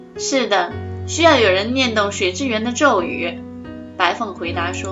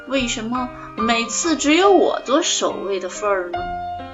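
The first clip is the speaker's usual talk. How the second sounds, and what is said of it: Childish quiet muttering. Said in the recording (Chinese): “孩子气的小声咕哝了一句”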